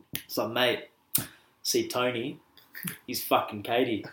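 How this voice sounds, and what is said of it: Put-on urban Australian accent. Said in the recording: “I'm going to do my best urban Oz accent”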